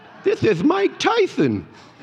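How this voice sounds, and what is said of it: Mike Tyson impression. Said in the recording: “Was that a good impression?”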